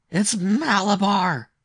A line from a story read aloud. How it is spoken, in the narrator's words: he screamed in a powerful, strange voice